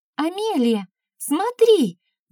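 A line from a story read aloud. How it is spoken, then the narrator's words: Shouting. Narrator (Russian): закричала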